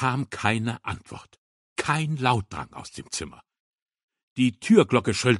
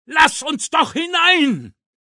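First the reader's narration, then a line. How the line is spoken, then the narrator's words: Shouted. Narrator (German): schrie er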